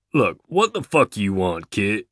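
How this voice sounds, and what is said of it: Surly, irritated Kentucky accent. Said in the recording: “the man says in a Kentucky accent, surly, irritated”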